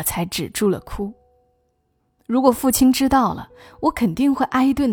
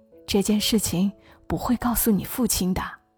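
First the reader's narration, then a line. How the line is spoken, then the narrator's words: Soft, comforting. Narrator (Chinese): 袁姨轻声安慰我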